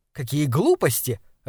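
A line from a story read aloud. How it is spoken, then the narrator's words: Irritated wife's reply. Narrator (Russian): раздраженно ответила жена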